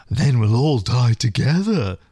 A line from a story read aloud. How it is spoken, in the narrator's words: the female coolly replied